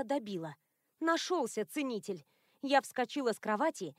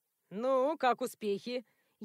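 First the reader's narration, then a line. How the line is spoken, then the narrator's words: Sarcastic question. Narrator (Russian): Язвительно поинтересовался бывший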